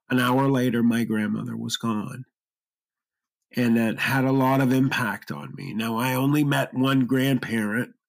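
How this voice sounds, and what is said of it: Choked-up, tearful voice. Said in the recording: “I'm sorry if I'm getting choked up.”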